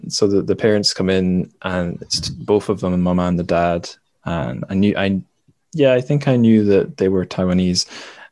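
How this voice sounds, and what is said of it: Fairly general British accent, Scottish speaker. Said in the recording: “you have an interesting accent, are you English? ... I'm from Scotland. I sound fairly British though, and my accent is maybe more generally British”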